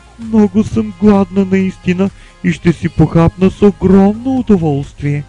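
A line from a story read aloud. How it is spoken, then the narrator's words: Mother exclaiming. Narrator (Bulgarian): възкликнала майката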